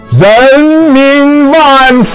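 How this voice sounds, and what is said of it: Loud shout in Hunan accent. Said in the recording (Chinese): “用可以驾驭风云的湖南口音高呼”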